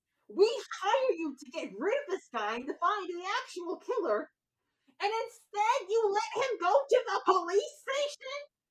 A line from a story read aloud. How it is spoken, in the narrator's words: He shouts